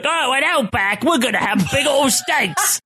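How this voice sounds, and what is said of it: Mock Outback commercial Australian accent. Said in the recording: “the stupid like... the commercials... In that voice... speaking in that accent.”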